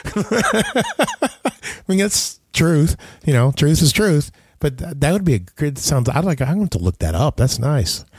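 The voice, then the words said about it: Voice in poor condition. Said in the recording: “my voice is so bad today.”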